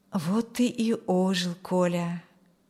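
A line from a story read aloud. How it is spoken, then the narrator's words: Muttered. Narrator (Russian): пробормотал Юрген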